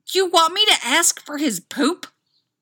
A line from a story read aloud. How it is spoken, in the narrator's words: Styles spluttered